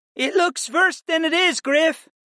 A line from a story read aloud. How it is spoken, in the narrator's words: he called out to me in his native tongue